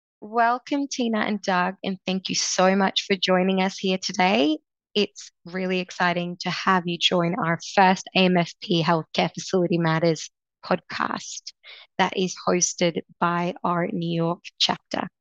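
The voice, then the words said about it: Australian accent. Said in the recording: “her wonderful Aussie accent and charm”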